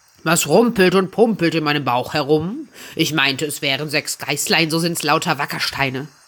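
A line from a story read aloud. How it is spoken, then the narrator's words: Called out. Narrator (German): rief er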